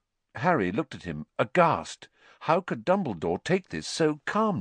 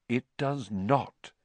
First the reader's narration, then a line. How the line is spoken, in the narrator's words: said Dumbledore quietly